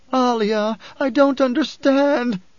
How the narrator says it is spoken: the woman wailed

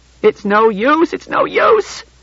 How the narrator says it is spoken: she cried

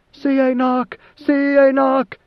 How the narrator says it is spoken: a roaring cry of

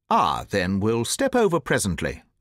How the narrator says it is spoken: said the Colonel, coolly

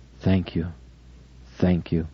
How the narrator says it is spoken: her murmuring

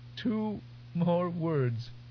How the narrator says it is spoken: Between gasps, she said

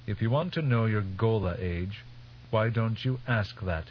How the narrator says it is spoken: His voice coldly accusing, Teg said

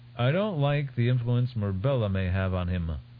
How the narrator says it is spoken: Belanda said

